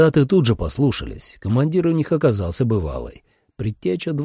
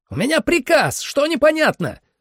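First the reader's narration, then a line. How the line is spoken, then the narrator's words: Officer yelling. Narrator (Russian): заорал лейтенант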